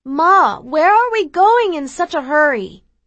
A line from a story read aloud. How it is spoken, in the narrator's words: I yell out to her from the bathroom